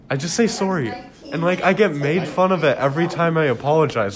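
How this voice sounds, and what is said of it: Canadian Quebec accent. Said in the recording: “the way you say it sounds like my relatives up in Kitchener... you got a good accent... I have Quebec.”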